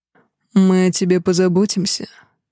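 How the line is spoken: Insinuating whisper. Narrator (Russian): вкрадчиво шепчет Рейгар

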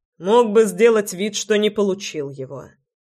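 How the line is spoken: Wry snort. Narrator (Russian): хмыкнул я

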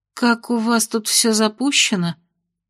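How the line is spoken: Muttering. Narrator (Russian): пробормотала Майя

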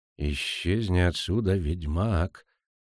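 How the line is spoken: Whisper. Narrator (Russian): шепнул Ферранделетенхоф

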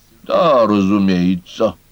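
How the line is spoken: Reluctant grumble, fox. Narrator (Russian): неохотно буркнула лисица

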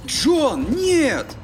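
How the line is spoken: Exclaiming. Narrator (Russian): воскликнул Чип

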